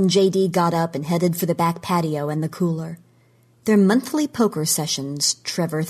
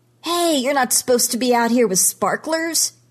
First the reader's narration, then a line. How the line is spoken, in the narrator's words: he yells